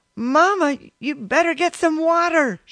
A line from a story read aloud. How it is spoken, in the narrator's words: she yelled over to her shoulder